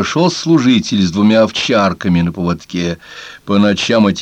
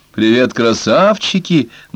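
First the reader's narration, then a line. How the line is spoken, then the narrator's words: Mocking drawl. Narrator (Russian): насмешливо протянул он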